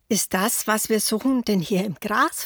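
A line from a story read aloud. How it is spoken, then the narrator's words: Plain. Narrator (German): fragt Huberto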